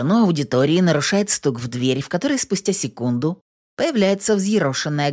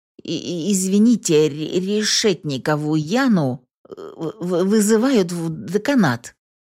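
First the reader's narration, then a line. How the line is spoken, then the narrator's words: Stammering. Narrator (Russian): сообщает он лектору, заикаясь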